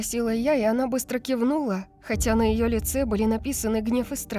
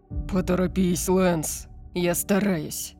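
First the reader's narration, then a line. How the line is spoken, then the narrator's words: Growling. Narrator (Russian): прорычал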